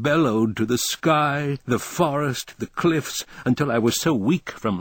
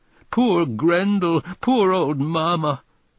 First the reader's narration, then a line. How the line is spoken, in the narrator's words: I wept and sobbed